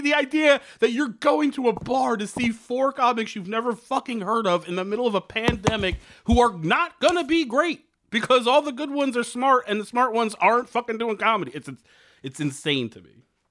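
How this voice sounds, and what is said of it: Yelling, loud ranting. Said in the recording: “I'm yelling.”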